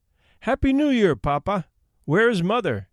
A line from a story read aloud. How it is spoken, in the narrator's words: we cried